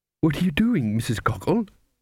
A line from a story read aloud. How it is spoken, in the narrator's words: said the cook anxiously